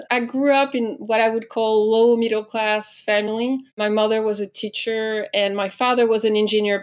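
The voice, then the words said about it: French accent. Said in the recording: “I'm French, as I'm sure you've already heard, thanks to my accent.”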